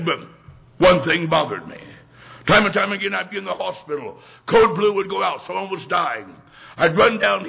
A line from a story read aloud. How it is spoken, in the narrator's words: he said